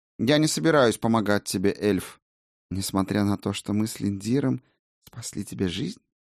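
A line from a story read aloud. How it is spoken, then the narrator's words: Gentle question. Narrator (Russian): По-прежнему мягко осведомился целитель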